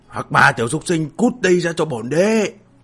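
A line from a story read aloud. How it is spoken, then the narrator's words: Relentless roaring shout. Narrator (Vietnamese): Tàn Báo trong miệng càng không ngừng quát gầm lên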